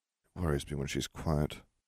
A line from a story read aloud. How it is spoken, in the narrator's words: Harry murmured